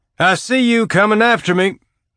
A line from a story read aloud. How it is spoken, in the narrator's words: Alex's shout sang